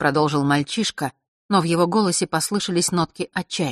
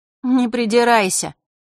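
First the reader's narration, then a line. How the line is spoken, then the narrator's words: Mocking girl's voice. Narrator (Russian): насмешливо произнес девчоночий голос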